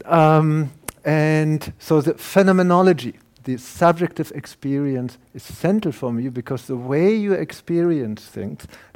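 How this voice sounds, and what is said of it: German accent. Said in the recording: “As you hear my German accent, I'm a German, I can't hide that.”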